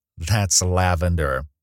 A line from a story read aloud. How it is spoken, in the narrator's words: she said teasingly